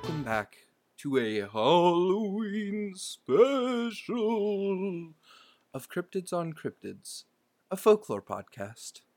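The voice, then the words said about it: Spooky Halloween narrator voice. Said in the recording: “your spooky voice is good”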